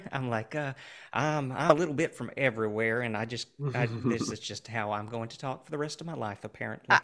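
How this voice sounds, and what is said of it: Oklahoma-type Southern Plains accent. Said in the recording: “originally I started out in Oklahoma and then made my way to the East Coast and could not get rid of the accent to save my life ... are you from Kansas? Are you from Texas? Are you from Oklahoma?”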